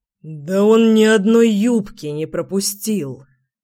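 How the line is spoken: Hoarse objection. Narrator (Russian): сипло возразил Рус Нагашов

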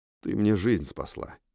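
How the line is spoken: Very quiet, unpretentious. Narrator (Russian): сказал я совсем негромко и постарался без пафоса

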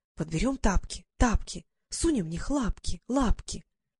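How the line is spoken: Whispering. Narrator (Russian): шептать ему в ушко

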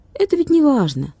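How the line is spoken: Cheerful boy. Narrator (Russian): бодро сказал мальчик

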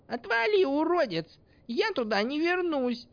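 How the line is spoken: Feisty squeaky girl's voice. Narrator (Russian): боевито пропищала девушка

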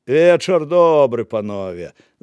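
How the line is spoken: Loud laughter. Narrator (Belarusian): зарагатаў Дубатоўк

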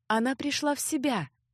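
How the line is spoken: Soft. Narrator (Russian): мягко сообщила куда-то Санди

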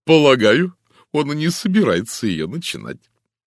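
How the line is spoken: Declaring after laughter. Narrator (Russian): Отсмеявшись, она заявила

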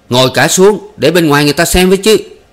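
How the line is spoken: Shouted. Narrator (Vietnamese): mấy anh Tuần thét

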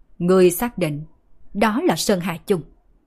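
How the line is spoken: Stern, impatient question. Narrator (Vietnamese): Loan Phượng là người đầu tiên không nhịn được, nghiêm giọng hỏi

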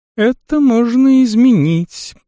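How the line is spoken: Female purring. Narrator (Russian): промурлыкала Вассара

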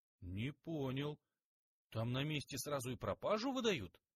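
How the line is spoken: Amazed exclamation. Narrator (Russian): Майор изумленно воскликнул

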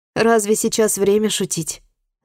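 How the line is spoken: Annoyed sigh. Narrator (Russian): с досадой вздохнула Чи

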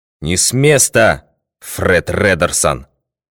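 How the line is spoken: Menacing, mighty shout. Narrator (Russian): грозным, могучим голосом закричал Нат Пинкертон

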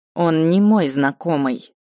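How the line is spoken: Curt, through clenched teeth. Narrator (Russian): процедила

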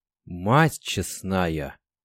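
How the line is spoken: Whisper. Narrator (Russian): прошептал Артём

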